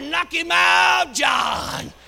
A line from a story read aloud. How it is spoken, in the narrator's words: Then holler